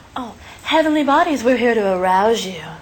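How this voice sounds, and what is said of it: Sexy, seductive voice. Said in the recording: “you have such a sexy voice. Are you as hot as you sound?”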